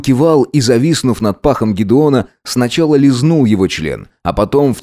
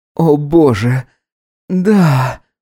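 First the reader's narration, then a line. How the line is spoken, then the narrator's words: Breathy exhale. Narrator (Russian): выдохнул Гидеон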